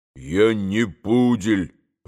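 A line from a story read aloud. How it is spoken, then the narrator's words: Grumbling. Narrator (Russian): проворчал и Григорий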